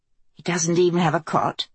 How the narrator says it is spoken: Kelsey asked Mace in an undertone

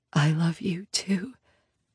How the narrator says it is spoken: I whisper back

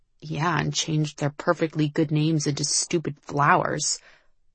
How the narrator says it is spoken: Liv muttered

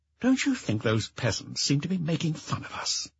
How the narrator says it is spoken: he murmured

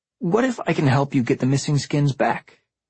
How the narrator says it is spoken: I blurted out, surprising myself

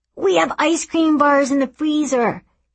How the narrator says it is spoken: he yells

